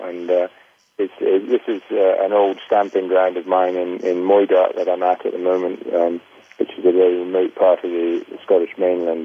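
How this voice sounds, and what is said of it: Scottish accent. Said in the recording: “we can tell by your accent, I think, you are from Scotland”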